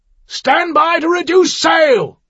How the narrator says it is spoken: Lieutenant Sadler barked through his speaking trumpet

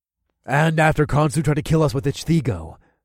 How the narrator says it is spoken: I said with a growl

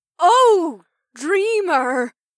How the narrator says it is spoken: Lena gasped

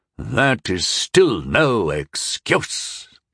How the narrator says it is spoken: the leader hissed

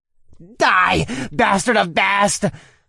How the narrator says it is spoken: one of the cultists screamed

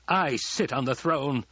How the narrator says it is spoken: he barked

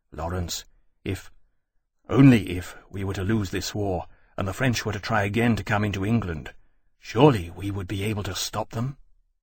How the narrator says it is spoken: He paused and added anxiously and low

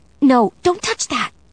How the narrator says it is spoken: My voice came out in a whispered shriek

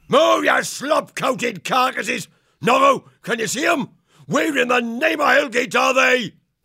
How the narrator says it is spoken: The scout bellowed back

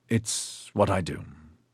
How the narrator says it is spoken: Troblum said gruffly

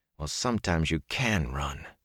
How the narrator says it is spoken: he muttered

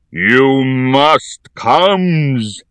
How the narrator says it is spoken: he thundered

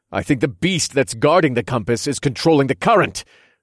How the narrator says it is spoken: I shouted back

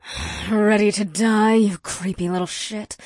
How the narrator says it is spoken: Ada snarled

